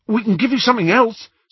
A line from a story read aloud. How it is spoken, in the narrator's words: said Ron eagerly